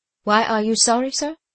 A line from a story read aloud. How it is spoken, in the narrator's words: said George calmly